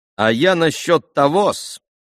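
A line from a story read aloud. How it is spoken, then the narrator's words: Sudden loud speech. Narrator (Russian): заговорил вдруг громко и неожиданно Смердяков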